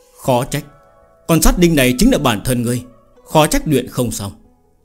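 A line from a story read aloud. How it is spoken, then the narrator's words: Sighing. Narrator (Vietnamese): Đại Bằng Tà Vương thở dài nói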